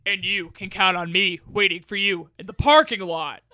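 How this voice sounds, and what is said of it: Impression of a film character. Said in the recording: “Mr. Larson from Happy Gilmore. That's like my favorite person to impress, do an impression of.”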